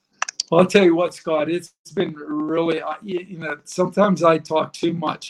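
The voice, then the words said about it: Pittsburgh Yinzer accent. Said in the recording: “you've got that Yinzer accent. You talk like my dad does”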